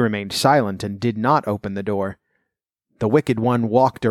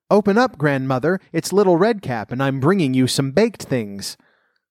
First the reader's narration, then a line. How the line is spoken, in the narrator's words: the wolf called out